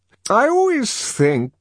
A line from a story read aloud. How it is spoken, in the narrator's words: continuing in the same rather maudlin tone